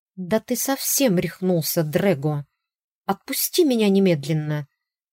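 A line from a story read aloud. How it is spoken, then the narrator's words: Angry hiss. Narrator (Russian): зашипела на него Ирис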